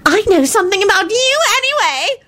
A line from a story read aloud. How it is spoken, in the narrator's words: Loretta shouted heatedly